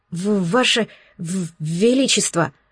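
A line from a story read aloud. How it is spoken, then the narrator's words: Stammering. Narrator (Russian): начал, заикаясь, советник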